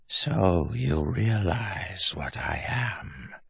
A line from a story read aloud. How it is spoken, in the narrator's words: said in his mind, feminine but rasping